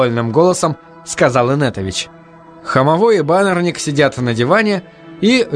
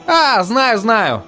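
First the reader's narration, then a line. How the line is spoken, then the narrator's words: Laughing. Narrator (Russian): рассмеялся баннерник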